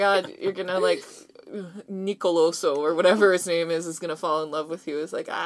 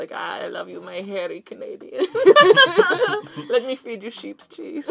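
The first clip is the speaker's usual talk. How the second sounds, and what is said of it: Attempted Greek accent. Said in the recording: “I don't know how to do a Greek accent.”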